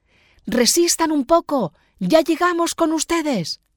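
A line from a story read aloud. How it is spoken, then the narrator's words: Shouting. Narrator (Spanish): Juan grita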